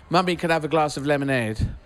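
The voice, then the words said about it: Put-on English accent, child's voice. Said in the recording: “we were encouraged to speak with an English accent. So in the house, I was going”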